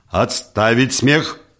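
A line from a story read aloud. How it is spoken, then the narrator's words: Stern command. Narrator (Russian): строго скомандовал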